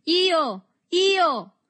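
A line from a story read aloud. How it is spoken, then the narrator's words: Group shouting. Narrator (Italian): gridarono i compagni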